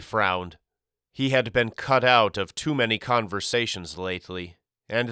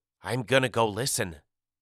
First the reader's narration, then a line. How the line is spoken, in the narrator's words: I whispered